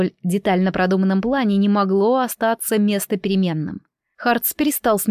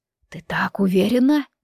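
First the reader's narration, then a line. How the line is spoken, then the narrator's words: Whisper. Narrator (Russian): прошептал он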